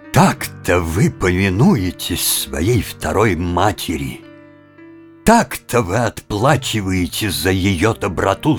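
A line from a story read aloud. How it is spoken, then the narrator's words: Tragic voice. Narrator (Russian): сказал Сен-Жером трагическим голосом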